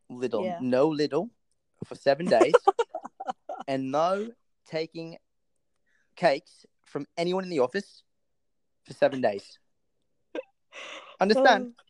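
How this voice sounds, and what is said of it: Put-on British accent, slightly Australian. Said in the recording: “this accent's pretty damn good ... You're a bit Australian”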